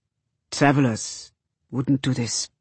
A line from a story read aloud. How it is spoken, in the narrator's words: says Cutter quietly